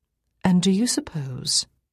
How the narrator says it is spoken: I said this gently, without a hint of sarcasm

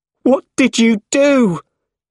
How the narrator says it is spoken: He shouted

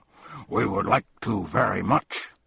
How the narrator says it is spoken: barked Tuck

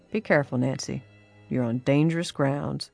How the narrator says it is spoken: he said, and added quietly

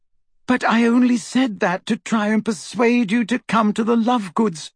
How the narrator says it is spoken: cried Hermione in exasperation

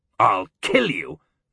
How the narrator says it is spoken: Dario growled

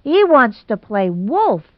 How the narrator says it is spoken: cried Geraldine

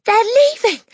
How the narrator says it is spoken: she cried

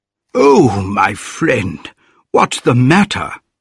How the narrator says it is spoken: cried the medical man

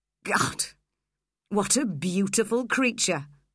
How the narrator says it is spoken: laughed Heathcliff scornfully

